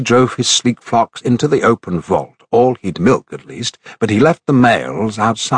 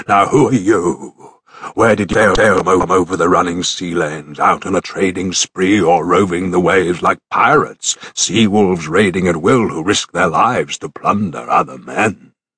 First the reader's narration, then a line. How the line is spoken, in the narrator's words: his rumbling voice and monstrous hulk